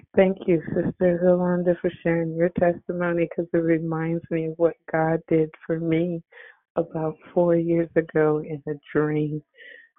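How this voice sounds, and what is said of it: Congested, cold-affected voice. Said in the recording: “Hope you can hear me because I have a cold”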